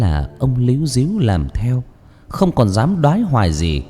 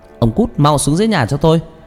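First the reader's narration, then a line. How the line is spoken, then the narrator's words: Woman shouting angrily. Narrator (Vietnamese): bà trừng mắt nhìn chồng mà quát lớn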